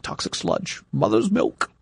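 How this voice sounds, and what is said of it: Good impression of Hexus. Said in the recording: “That was a really good impersonation. ... Of what was the character's name? ... Hexus”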